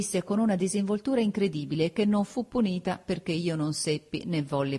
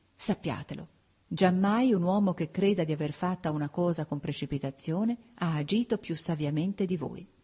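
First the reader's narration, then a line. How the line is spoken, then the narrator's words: Low voice. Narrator (Italian): Poi a bassa voce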